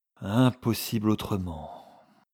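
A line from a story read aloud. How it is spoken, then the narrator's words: Sighing. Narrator (French): reprit le prince André avec un soupir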